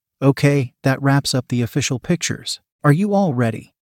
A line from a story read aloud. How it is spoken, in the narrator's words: Mailna said quietly